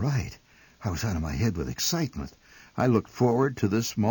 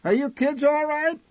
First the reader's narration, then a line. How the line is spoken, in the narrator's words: My mother occasionally shouted back through the din